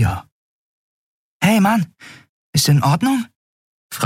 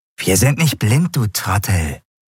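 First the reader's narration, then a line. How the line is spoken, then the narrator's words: Hissing voice. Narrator (German): fauchte eine andere Stimme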